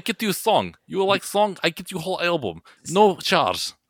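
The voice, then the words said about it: Put-on Russian accent. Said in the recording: “I was trying to do that without a Russian accent because that felt like that's where that was going”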